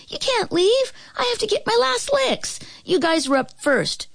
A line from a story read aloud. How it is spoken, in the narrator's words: she cried